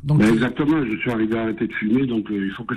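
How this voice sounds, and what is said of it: Southern French accent. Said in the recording (French): “vous habitez visiblement avec votre accent, vous habitez dans le sud”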